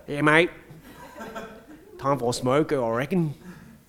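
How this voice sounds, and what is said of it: Broad Australian tradie accent. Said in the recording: “talking to tradies ... They have a different accent.”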